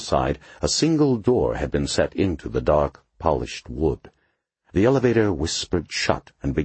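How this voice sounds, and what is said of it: Usual voice. Nothing is said of it.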